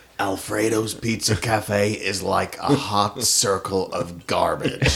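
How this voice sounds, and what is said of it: Imitates a TV character's voice. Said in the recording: “Good impression, too.”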